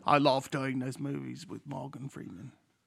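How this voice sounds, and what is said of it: Michael Caine impression. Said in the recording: “You sounded like Forrest Gump ... Doing an impression of Michael Caine”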